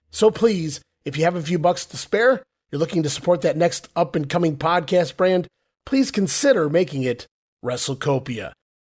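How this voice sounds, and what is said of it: Sick-sounding voice. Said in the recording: “as you can hear from my voice, guys, through sickness and in health”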